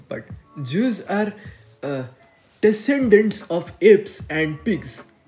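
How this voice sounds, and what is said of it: Mocking put-on foreign accent. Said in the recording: “sorry for racist accent”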